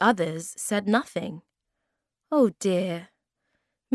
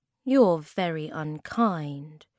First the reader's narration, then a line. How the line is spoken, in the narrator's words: said Moomin Troll sadly